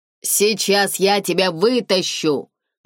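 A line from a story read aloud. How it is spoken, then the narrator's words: Shouting over the wind. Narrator (Russian): громко сказал, стараясь перекричать завывание ветра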